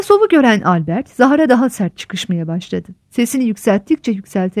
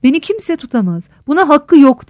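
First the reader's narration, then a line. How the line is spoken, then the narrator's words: Shouting. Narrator (Turkish): diye bağırıyordu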